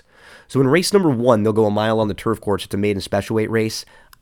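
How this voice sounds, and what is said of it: Sick, under-the-weather voice. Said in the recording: “You can hear in my voice, I'm still a little under the weather.”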